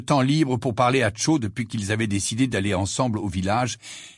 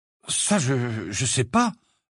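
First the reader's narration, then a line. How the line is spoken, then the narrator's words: Uncertain tone. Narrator (French): répondit-il d'un ton incertain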